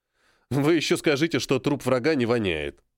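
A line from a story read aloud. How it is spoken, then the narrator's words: Snorting. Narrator (Russian): фыркнул я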